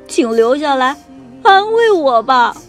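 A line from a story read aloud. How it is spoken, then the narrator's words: Sobbing. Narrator (Chinese): 蜗牛哭哭啼啼地说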